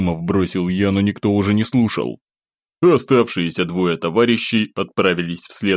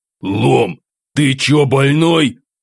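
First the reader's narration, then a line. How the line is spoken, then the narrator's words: Angry shout. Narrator (Russian): зло крикнул Самсон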